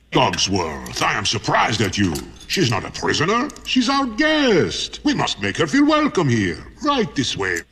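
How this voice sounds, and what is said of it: Accented animated character voice. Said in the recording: “I recognize that accent, and that is Lumiere the Candlestick from Beauty and the Beast”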